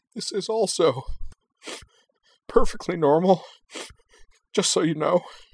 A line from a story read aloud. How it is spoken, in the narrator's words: Anthy sobbed